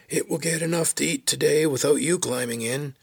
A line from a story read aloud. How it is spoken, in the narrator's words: Someone hollered in his ear